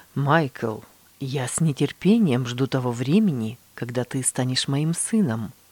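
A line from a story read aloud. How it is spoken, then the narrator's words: Quiet. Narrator (Russian): тихо добавил брат Иутси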